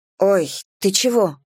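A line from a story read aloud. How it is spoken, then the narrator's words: Muttering. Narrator (Russian): бормочу я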